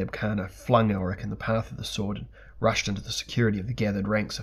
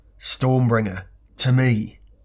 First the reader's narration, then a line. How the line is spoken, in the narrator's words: now he cried aloud